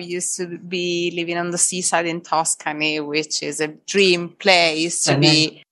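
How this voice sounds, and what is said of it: Italian accent. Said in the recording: “I'm from my accent. You can understand I'm from Italy, surely.”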